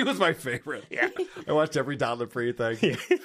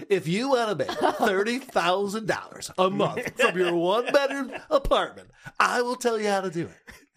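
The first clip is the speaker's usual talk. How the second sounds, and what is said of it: Imitates an infomercial pitchman's voice. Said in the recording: “I thought he was talking about Don Lapre ... my impression”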